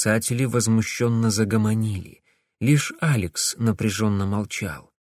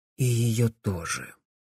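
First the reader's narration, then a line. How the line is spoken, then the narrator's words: Quiet agreement. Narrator (Russian): тихо согласился Алекс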